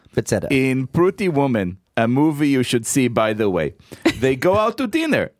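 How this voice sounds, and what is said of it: Imitates another person's accent. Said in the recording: “I will do the Benny Guns accent.”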